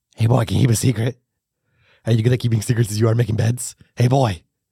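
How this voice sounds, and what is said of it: Creepy old man character voice. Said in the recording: “that's how he sounds. He's high on drugs at this part ... Old man voice, I always read as like a creepy boy. Creepy guy.”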